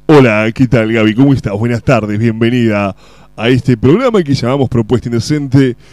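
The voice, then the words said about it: Radio announcer voice. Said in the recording (Spanish): “Voy a poner voz de locutor ... Si puse voz de locutor”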